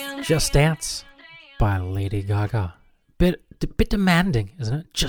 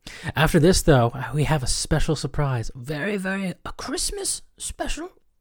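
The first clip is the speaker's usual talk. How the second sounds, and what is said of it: Voice rising in pitch. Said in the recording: “I don't know why my voice is going up.”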